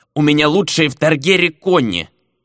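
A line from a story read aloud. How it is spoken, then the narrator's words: Offended grumble. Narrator (Russian): обиженно пробурчал торговец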